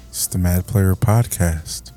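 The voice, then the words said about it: Calm public-radio announcer voice. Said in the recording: “Using my NPR voice this week.”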